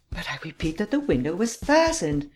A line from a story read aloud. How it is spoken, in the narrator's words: exclaimed the Count impatiently